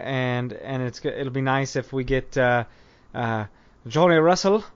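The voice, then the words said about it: Put-on Scottish accent. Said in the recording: “that's my best Scottish accent”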